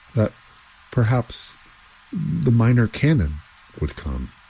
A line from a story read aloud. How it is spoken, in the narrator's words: said one of the laborers, his voice shaking so that his words could hardly be understood